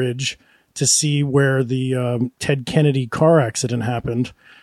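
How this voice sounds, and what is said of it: Usual voice. Nothing is said of it.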